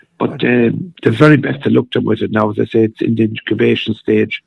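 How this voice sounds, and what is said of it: Hoarse voice. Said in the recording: “my voice is a little bit hoarse at the moment”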